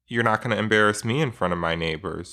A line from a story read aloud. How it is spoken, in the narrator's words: she said